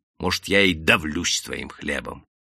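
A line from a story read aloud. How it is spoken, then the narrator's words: Cold reply. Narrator (Russian): холодно ответил человек в сетке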